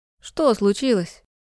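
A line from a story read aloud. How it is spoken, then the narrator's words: Sleepy yawn on phone. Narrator (Russian): Сонно зевает в трубку Ната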